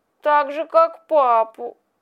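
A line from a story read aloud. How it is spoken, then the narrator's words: Sobbing boy. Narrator (Russian): ответил, всхлипывая мальчик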